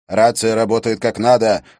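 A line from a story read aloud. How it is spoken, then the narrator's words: Shouted. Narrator (Russian): крикнул Лебье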